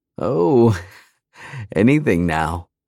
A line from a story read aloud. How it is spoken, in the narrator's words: I chuckled